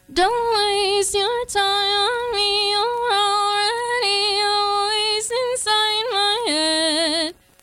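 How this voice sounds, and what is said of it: Sung imitation of another person's voice. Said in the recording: “I have a really good Angel Olsen impression ... This is my impression of Angel Olsen singing Blink One Eighty Two ... that was perfect. Nailed it.”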